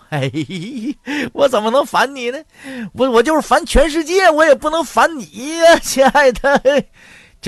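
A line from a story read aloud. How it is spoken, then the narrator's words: Cheerful grinning. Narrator (Chinese): 大旺当时笑嘻嘻就说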